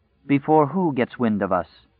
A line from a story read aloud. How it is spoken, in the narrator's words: asked coldly